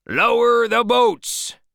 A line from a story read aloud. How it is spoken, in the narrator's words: shouted Ahab